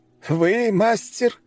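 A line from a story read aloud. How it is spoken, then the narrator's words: Laughing. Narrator (Russian): китаец рассмеялся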